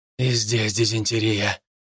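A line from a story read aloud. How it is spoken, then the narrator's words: Man muttering. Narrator (Russian): бормотал мужчина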